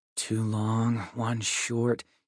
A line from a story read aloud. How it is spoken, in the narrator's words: he muttered